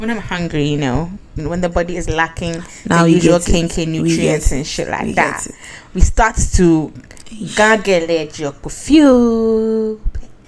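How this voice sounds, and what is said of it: Put-on Ghanaian accent. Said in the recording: “now became very Ghanaian ... The whole of this episode, ... accent has been, is coming straight from Latabi Okoshi. ... Straight from Jamestown ... Tomorrow we'll be back to regular covering, though. This is just a one day thing.”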